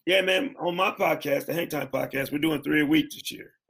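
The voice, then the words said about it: Hoarse, worn-out voice. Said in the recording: “That's why my voice is shot. I'm drinking tea all the time.”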